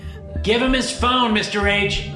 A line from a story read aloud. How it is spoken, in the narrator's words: Max called out from the back of the classroom